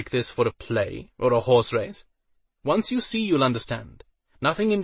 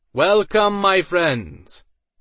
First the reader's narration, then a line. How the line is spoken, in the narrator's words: Iden cried out in a booming voice that carried